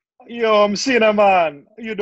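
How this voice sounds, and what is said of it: Put-on Jamaican accent character voice. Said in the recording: “a jolly Jamaican cinnamon stick”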